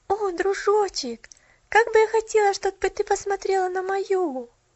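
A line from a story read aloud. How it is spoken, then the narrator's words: Girl's wistful sigh. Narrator (Russian): вздохнула девочка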